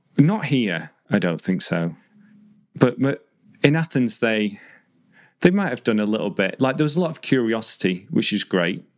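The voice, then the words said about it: British accent. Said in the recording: “tease me about the accent ... treat you differently because of your accent ... you're a foreigner ... someone didn't like the British”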